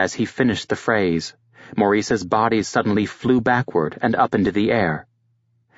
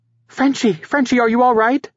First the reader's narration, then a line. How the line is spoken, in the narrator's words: she cried